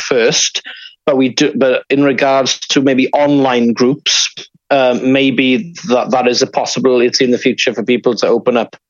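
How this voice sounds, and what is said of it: West Welsh accent. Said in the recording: “I'm from Cardigan originally, hence the accent.”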